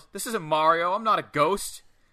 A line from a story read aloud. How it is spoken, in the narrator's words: Savoy yells